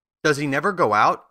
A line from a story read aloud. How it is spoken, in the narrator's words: asked the Scarecrow